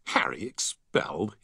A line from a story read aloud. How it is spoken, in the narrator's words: he scoffed